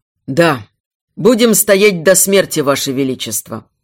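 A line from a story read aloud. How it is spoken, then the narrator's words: Deep bass voice. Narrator (Russian): пробасил Инрак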